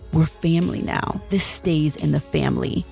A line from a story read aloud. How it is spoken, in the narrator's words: Fisher in his stupid mafioso tone said